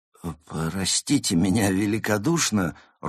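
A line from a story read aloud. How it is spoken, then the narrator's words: Timid dog's voice. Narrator (Russian): робко произнес пес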